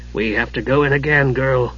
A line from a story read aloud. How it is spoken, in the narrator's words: he said